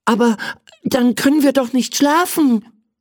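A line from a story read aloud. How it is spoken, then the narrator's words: Excited male call. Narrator (German): rief er aufgeregt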